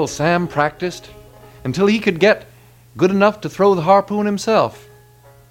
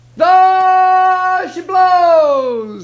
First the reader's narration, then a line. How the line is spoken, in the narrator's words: he hollered